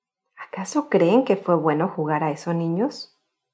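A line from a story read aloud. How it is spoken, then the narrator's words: Plain. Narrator (Spanish): dijo al fin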